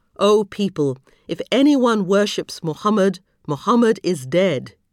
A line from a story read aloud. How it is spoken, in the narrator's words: he ended firmly